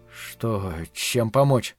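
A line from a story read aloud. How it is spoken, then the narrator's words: Incoherent mumbling. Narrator (Russian): бессвязно бормотал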